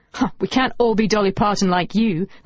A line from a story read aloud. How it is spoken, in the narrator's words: laughed Lucy